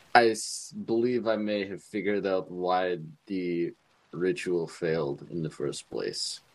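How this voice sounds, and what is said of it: Dracula-style vampire voice. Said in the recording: “my best Dracula impersonation”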